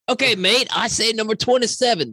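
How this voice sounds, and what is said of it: Mixed Southern and Australian accent. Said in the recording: “That was my southern accent and my Australian accent mixed together.”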